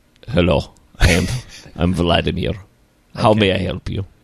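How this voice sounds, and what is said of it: Put-on Russian accent. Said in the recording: “I can't do a Russian accent, Bill.”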